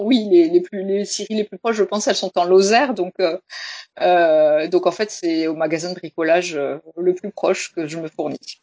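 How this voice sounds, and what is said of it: Slight southern French accent. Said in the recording (French): “ce petit accent qui nous fait tout de suite voyager ... il y a peut-être un cigale, un peu de soleil dans l'accent”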